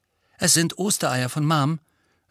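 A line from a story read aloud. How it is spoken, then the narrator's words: Plain. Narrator (German): sagte Ginny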